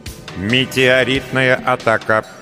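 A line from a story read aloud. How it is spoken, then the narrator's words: Synthetic announcing voice. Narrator (Russian): синтетическим голосом вещала система безопасности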